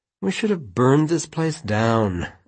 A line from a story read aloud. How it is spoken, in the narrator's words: Alice said gloomily